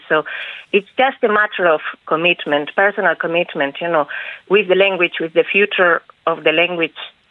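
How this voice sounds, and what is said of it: Spanish accent in English. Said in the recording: “speaking Irish in your lovely accent that we're hearing now in English? ... in a beautiful Spanish gloss”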